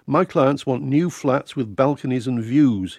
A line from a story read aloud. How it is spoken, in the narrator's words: he said